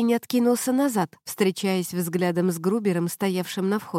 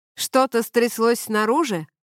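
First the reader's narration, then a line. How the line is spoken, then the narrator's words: Shout. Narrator (Russian): крикнул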